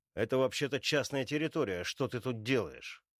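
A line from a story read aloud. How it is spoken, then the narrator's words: Angry question. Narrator (Russian): Зло спрашивает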